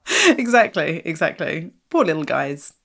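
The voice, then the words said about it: Sarcastic delivery. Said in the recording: “I'm saying that sarcastically, obviously.”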